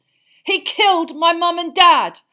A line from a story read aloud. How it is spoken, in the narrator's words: Harry roared